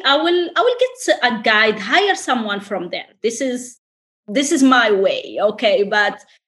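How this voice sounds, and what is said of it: French accent. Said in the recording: “I love your accent ... a French accent as well”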